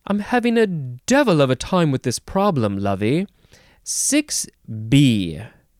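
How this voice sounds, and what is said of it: Attempted British accent. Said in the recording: “that's British... accents are hard. Why is it that I can hear it in my head, but I can't say it?”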